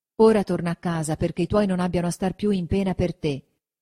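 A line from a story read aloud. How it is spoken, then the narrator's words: Plain. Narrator (Italian): disse Agnese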